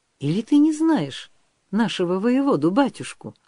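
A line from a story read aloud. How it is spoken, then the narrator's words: Surprised question. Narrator (Russian): удивленно спросил Григорий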